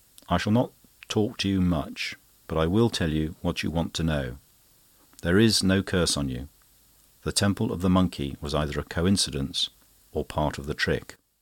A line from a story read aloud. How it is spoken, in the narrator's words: said quietly